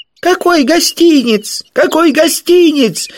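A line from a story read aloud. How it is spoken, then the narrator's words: Shrill squeal, muffled. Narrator (Russian): завизжал Колобок уже из сумы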